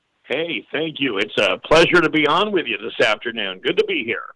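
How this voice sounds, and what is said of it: Polished radio announcer voice. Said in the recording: “you have a radio voice”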